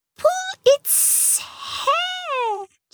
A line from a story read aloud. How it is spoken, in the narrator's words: Jilly hissed